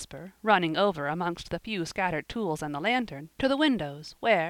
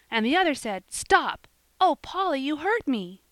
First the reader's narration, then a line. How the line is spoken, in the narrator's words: she cried, as Polly, unable to bear the strain any longer, held her so tightly she could hardly breathe